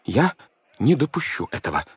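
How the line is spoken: Breathed out. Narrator (Russian): выдохнул он, наконец

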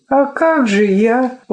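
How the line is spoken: Dejected question. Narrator (Russian): упавшим голосом спросила Лёля

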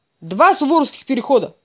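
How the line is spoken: Soldier's loud bark. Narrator (Russian): гаркнул солдат

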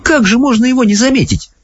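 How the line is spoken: Exclaiming. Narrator (Russian): воскликнула Софи

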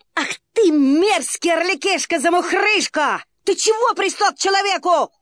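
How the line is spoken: Shouted. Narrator (Russian): крикнул

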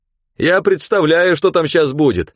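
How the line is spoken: Shouting from truck bed. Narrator (Russian): кричал из кузова Саша

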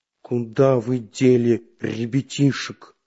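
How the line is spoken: Hissed through clenched teeth. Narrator (Russian): сжав зубы, процедил Карандаш

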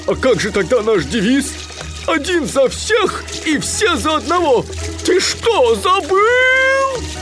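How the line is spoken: Roaring. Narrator (Russian): взревел Гуффи

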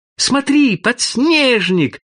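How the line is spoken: Joyful shout. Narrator (Russian): крикнул старший радостно

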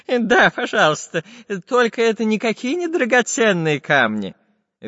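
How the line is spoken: Cheerful laughing old man. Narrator (Russian): Весело засмеялся старичок-географ

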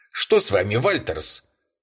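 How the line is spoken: Sharp question. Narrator (Russian): резко спросил его Бэйнс

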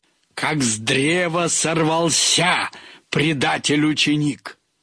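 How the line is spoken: Menacing proclamation. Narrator (Russian): Владимир Николаевич грозно провещал

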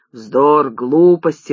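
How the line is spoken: Grumbling. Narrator (Russian): ворчал башка

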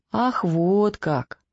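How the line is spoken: Sadly surprised young man. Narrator (Russian): печально удивился молодой человек

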